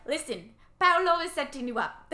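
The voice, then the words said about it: Put-on Italian accent. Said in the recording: “my impersonation of Hilary Duff's Italian accent”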